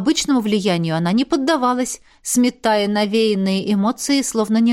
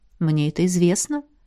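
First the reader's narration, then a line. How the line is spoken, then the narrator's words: Gentle interruption. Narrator (Russian): мягко перебил ее император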